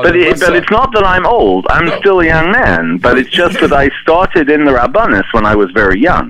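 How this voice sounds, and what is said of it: Speaks with a noticeable accent. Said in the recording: “They only hear your accent.”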